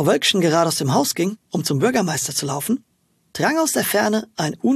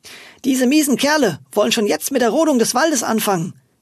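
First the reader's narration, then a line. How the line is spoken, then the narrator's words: Indignant call. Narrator (German): rief ihr die Kesse Kessi aufgebracht zu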